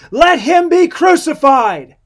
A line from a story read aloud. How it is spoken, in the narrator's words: And they all cried out again to him